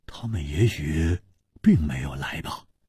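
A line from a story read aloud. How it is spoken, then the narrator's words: Low, deep voice. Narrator (Chinese): 黄鲁直沉声说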